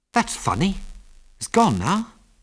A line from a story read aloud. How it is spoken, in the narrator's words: said Ginger in a puzzled voice